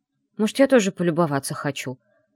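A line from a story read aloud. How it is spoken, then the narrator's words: Snorting. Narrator (Russian): фыркнула я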